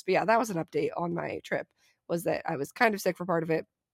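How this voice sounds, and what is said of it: Weak voice with lingering cough. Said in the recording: “I have a lingering cough and my voice doesn't sound great... my voice is a little bit weak at the moment”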